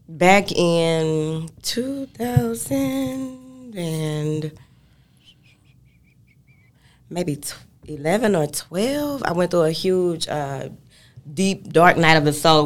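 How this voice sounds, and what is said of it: Texan accent. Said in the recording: “South Dallas, Texas. ... I can hear the accent.”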